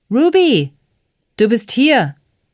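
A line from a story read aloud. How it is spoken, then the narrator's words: Bellowing. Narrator (German): brüllte Wyatt, als er sie sah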